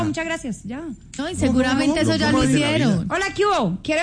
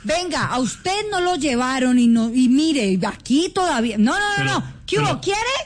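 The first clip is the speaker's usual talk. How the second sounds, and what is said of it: Imitates another person's accent. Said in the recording (Spanish): “Con el acento de Liche”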